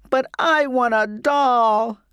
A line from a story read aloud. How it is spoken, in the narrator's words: I sobbed